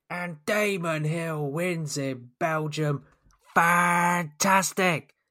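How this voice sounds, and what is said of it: Imitates a sports commentator's voice. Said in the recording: “Enough of my Murray Walker impersonations.”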